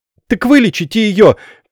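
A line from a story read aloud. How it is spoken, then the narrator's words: Shout. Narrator (Russian): крикнула Надя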